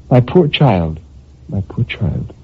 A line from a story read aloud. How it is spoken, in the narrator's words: She murmured gently